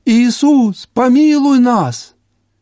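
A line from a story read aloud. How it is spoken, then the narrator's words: Lepers crying out. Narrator (Russian): прокаженные увидели Иисуса, они закричали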